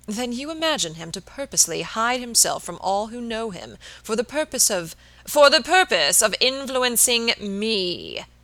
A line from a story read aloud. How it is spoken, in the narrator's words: exclaimed Mr